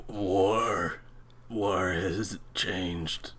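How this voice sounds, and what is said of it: Raspy gravelly impression of another voice. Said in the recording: “That's actually not a bad impersonation... That's really bad... David Hayter's voice in this one sounds like... someone like took a rusty piece of rebar and... filed down his larynx”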